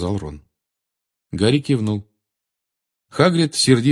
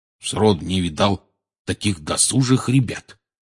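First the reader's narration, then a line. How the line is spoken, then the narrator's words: Grumbling. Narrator (Russian): бурчал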